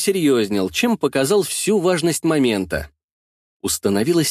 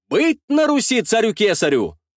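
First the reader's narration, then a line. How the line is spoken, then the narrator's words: Shouting. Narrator (Russian): выкрикнул я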